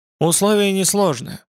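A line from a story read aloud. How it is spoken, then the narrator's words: Even, steady voice. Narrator (Russian): произнес он ровным голосом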